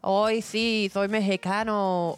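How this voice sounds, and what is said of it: Exaggerated fake Mexican accent. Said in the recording (Spanish): “el acento de los supuestos mexicanos que hablan así”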